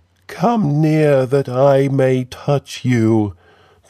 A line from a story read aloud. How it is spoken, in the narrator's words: the creature faltered